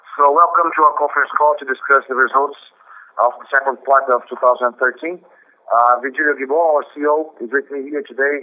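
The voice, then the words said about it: Sick, flu-affected voice. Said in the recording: “sorry about my voice. I've got a bit of a flu here”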